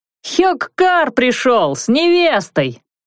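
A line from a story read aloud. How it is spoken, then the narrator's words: Boy's ringing shout. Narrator (Russian): звонко выкрикнул мальчишка-разносчик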